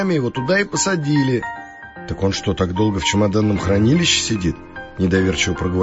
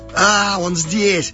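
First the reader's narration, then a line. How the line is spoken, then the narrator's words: Excited shout. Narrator (Russian): закричал и запрыгал Санек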